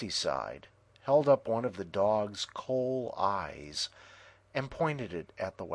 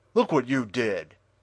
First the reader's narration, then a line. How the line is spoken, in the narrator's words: shouted Frosty